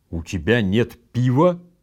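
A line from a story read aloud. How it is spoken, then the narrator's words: Alarmed exclamation. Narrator (Russian): с тревогой воскликнул Токи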